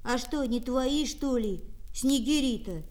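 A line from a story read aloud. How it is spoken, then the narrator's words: Plain. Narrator (Russian): спросил Демушка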